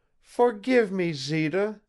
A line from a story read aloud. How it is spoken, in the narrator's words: begged Eva, in the rush of her emotions